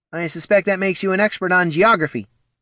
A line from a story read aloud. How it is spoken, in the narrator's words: snapped Poldo